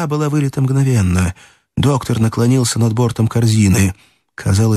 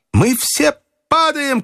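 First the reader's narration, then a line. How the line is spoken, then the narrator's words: Shouted. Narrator (Russian): крикнул Фергюсон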